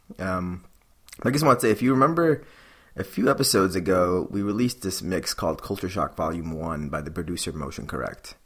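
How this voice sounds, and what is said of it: Sick, slightly off-sounding voice. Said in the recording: “I'm a little under the weather right now. That's why my voice sounds a little funny.”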